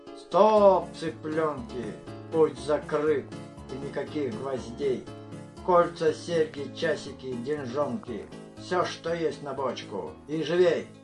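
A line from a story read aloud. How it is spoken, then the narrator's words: Hoarse grumble. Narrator (Russian): Первый хрипло буркнул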